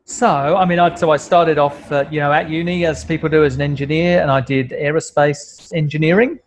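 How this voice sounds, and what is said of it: British accent. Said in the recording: “I moved from the UK, as you can probably tell by my accent.”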